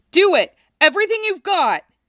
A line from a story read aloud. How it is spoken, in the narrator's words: Cloud shouted